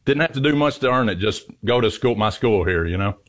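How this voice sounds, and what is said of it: Southern American accent, Kentucky. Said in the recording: “clearly a Southern gentleman. You have a beautiful accent ... Western Kentucky”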